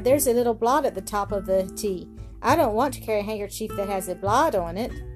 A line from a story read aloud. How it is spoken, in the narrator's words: cried